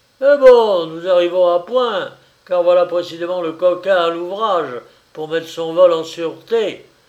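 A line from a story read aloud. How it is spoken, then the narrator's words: Exclaiming. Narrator (French): s'écria le commissaire du tribunal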